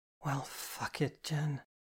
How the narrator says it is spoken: she muttered

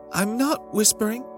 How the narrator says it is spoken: Jenny said in her tiniest speaking voice

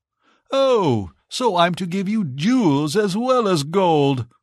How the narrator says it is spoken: cried the Emperor

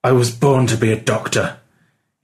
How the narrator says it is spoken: he said through gritted teeth

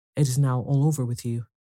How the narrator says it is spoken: cried the queen

